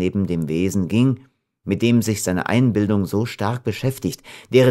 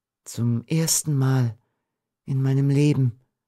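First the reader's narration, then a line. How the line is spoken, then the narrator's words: Whispered. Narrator (German): wandte sie sich flüsternd an den Strauch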